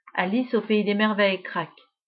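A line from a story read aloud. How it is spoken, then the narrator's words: Grudging grumble. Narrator (French): grogne Ida à contre-cœur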